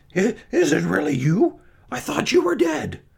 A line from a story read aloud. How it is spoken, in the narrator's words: he gasped